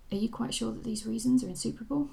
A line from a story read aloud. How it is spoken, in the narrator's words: asked